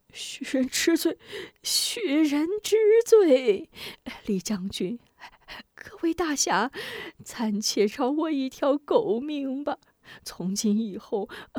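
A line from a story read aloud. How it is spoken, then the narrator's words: Trembling, desperate pleading. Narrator (Chinese): 许仁则抖如筛糠，苦苦哀求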